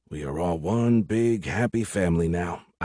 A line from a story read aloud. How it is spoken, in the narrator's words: I whispered